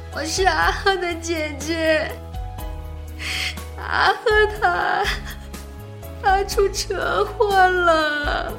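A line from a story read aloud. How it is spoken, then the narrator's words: Woman sobbing over phone. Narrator (Chinese): 电话里传来一个陌生女子的抽泣声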